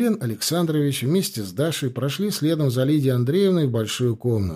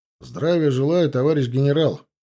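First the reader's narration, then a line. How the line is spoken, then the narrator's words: Strict military address. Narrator (Russian): строго по уставу сказал подполковник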